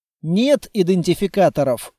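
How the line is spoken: Calm reply. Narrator (Russian): спокойно ответил я

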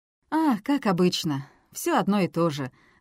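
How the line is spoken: Bitter sigh. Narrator (Russian): с горечью вздохнул Оливер

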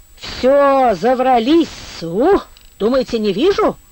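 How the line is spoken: Boy's hateful tearful outburst. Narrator (Russian): Вдруг ненавистно выкрикнул мальчишка, и глаза его невольно расквасились, набухли от слезы

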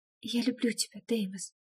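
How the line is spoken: Trembling whisper. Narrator (Russian): прошептала дрожащим голосом

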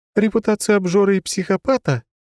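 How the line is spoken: Sudden laughter. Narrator (Russian): Ангелина вдруг расхохоталась

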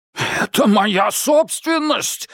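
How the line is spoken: Barking. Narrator (Russian): рявкнул коротышка-историк

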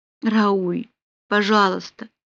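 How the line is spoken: Passionate moan. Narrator (Russian): простонала Полли, еще не осознавая, что желание и страсть победили

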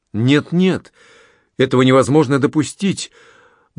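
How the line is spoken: Ardent exclamation. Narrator (Russian): воскликнул с жаром Анри

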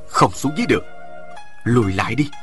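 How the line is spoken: Soft, quiet. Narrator (Vietnamese): Chàng khẽ nói

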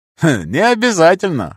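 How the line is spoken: Snorted. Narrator (Russian): хмыкнул

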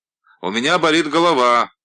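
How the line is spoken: Loud repetition. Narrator (Russian): повторяю я громко

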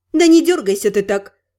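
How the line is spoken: Slightly irritated remark. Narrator (Russian): чуть раздраженно бросила я

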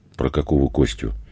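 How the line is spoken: Woman sighing. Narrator (Russian): женщина вздохнула

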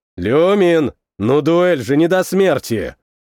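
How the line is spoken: Angry. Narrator (Russian): Сердито произнес

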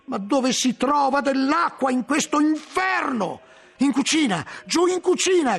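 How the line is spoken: Shout. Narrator (Italian): gridai

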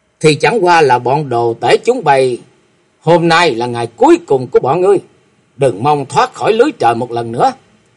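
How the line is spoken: Laughing loudly. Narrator (Vietnamese): chàng ngửa mặt lên trời cười to nói

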